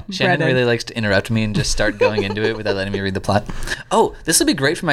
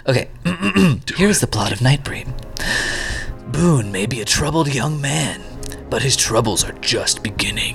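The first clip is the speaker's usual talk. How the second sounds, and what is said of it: Gravelly movie trailer voice. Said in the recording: “my gravelly trailer voice because I'm already sick”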